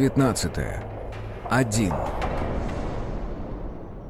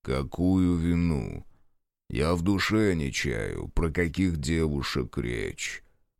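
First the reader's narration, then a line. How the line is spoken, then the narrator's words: Deep bass voice. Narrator (Russian): пробасил Григорий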